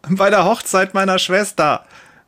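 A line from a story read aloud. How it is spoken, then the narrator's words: Woman calling out. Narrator (German): ruft eine Frau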